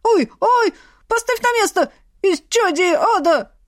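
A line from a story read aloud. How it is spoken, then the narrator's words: Wailing skull. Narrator (Russian): вопил череп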